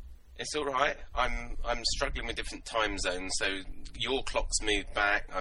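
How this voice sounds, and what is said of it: Usual voice. Nothing is said of it.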